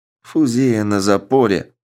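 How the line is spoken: Grumbling mutter. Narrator (Russian): буркнул Морозов в пространство

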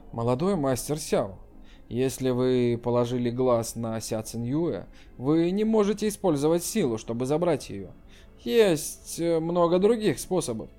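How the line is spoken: Low voice. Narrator (Russian): сказал вполголоса

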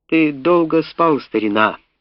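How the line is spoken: Loud bitter laugh. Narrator (Russian): Он громко и горько рассмеялся

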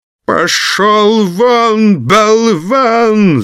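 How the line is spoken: Yelling through coughing fit. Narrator (Russian): заорал граф, заходясь от кашля

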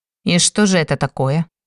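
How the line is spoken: Cold inquiring tone. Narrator (Russian): Холодным тоном поинтересовался тот

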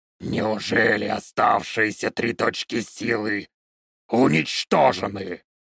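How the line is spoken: Growled. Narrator (Russian): прорычал он

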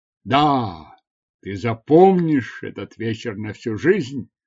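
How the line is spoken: Exclamation, then laughter. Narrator (Russian): воскликнул и разразился смехом

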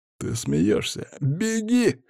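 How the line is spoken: Laughing. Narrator (Russian): хохотнул он

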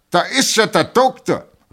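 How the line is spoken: Colonel calling out. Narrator (German): rief der Oberst

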